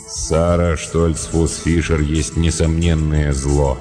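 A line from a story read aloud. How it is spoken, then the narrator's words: Gloomy speech. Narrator (Russian): мрачно проговорил он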